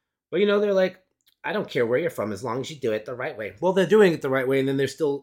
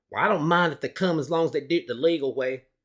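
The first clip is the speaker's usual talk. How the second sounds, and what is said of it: Put-on Southern accent. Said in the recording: “Southern accent. I'm just doing that”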